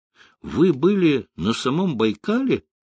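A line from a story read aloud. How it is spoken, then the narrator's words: Exclaimed. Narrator (Russian): воскликнула Ольга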